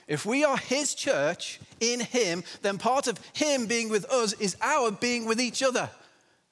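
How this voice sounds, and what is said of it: English accent. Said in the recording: “Because of the English accent, right?”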